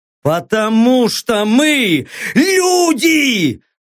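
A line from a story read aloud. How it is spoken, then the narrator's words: Angry bark. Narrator (Russian): Зло рявкнул Леха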